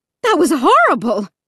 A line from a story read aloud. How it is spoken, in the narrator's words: my mom shrieked